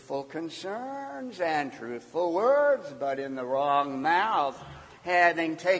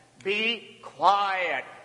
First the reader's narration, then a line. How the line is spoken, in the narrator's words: Jesus said sternly